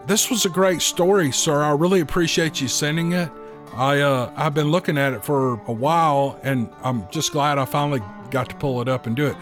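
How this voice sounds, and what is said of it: Strained, worn-out voice. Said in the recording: “my voice is wearing out, y'all. It's wearing out, but it's coming back. It's getting better.”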